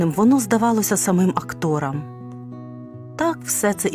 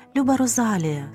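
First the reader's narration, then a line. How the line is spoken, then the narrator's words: Tender. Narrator (Ukrainian): сказала вона ніжно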